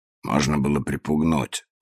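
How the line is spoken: Grumbled. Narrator (Russian): пробурчал

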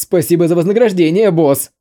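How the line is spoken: Joyful group. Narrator (Russian): Обрадовались те четверо

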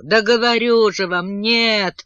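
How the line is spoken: Saleswoman sobbing. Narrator (Russian): всхлипнула продавщица

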